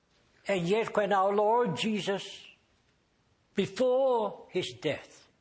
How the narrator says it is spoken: he shouted

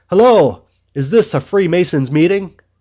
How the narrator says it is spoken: called out

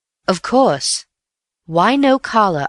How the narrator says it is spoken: I said

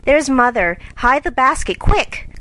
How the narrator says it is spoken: cried Jo

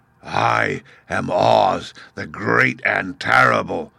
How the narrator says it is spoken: spoke the beast in a voice that was one great roar

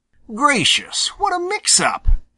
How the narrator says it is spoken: exclaimed Johnny Chuck

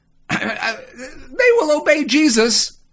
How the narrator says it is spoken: I squeaked

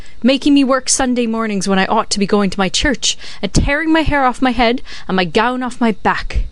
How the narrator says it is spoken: she cried

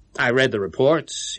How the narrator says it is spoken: he replied

